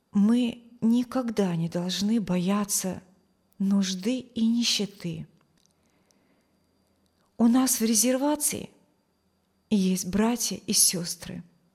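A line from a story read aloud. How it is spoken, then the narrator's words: Soft low voice. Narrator (Russian): Кивати вставила своим мягким низким голосом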